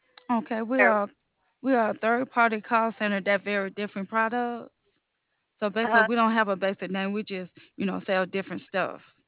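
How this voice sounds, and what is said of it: Speaks with a noticeable accent. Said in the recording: “I just love your accent.”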